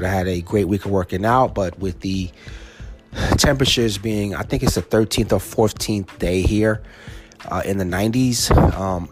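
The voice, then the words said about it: Tired voice. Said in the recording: “I am so tired. You can probably hear it in my voice.”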